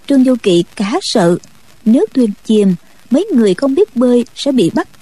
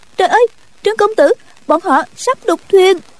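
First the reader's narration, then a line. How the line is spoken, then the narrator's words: Cry out. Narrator (Vietnamese): Tiểu Chiêu kêu lên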